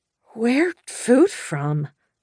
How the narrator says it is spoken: I rasped

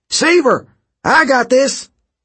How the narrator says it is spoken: Coach Hedge shouted down once more

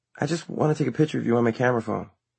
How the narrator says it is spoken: she said nervously

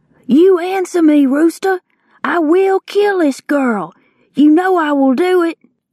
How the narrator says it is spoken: Lucky Ned Pepper shouted

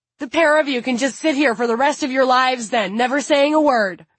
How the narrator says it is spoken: her mom yelled

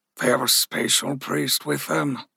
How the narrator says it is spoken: Ruzi sighed

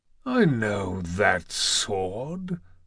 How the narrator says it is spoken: Zeus murmured

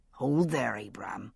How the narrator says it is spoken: said the second man, speaking softly but clearly

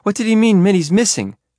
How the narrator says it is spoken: Olivia cried

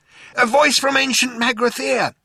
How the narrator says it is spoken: shouted Zaphod

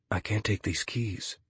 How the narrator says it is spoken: Connor whispers

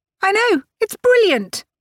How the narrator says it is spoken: Annabel cried, misreading Grace's mood completely

